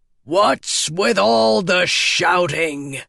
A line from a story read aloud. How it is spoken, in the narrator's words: boomed a voice